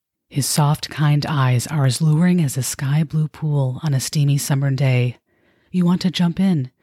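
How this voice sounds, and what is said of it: Sensual narrator voice. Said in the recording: “incapable of reading the following excerpt in my normal voice, but I have to do so in my sensual narrator voice”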